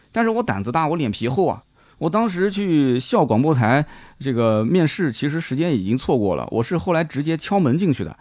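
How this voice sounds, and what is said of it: Heavy Nanjing-accented Mandarin. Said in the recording (Chinese): “我普通话不标准...我南京的普通话的这个口音还是比较重的，了了不分”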